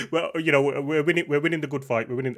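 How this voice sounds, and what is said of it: Birmingham (Brummie) English accent. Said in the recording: “the Brummy accent? ... it's a lovely accent.”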